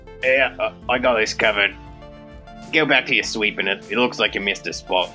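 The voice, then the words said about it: Put-on New Zealand accent. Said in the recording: “I forgot that I had to do a New Zealand accent.”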